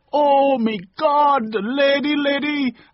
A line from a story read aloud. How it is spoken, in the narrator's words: a woman shouted out